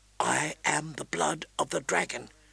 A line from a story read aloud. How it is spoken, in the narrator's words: she whispered aloud, trying to keep her courage up